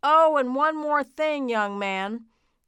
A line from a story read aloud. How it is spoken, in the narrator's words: Santa shouted down to Duncan